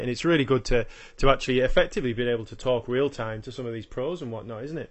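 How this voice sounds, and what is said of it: Yorkshire accent with Australian touches. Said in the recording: “enjoy your, your accent. ... my accent is, effect, well, pretty much all uh, Yorkshire with a little bit of Australia chucked in there as well.”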